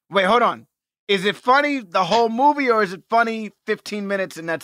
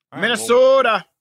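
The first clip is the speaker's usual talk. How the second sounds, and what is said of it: Put-on Minnesota accent. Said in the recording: “Is that your Minnesota accent? ... I was trying my best to do my Minnesota accent.”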